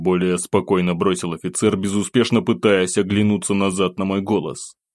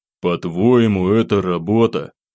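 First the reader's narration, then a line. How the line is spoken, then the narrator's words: Sigh. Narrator (Russian): вздохнул я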